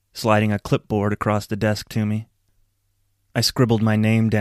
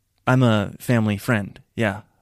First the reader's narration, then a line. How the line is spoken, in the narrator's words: said stiffly